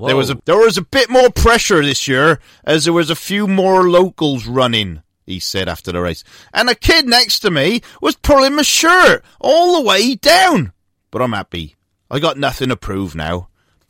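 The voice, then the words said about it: Put-on Gloucestershire English accent. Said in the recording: “That's a genuine Gloucester accent, Rob. Genuine.”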